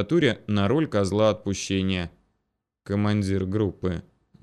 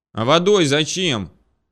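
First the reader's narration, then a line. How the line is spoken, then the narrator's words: Shouted after someone. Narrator (Russian): крикнул ей в спину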